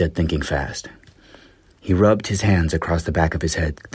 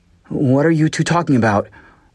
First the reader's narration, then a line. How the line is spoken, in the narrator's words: whined Hap